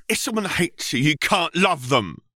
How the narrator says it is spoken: Eridan barked

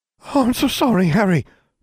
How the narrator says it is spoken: Hermione gasped, horrified

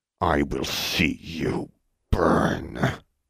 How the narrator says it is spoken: whispered in a low, harsh voice

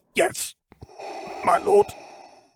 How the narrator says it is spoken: the Admiral rasped out, voice sounding like it was in as many tatters as his earlier confidence

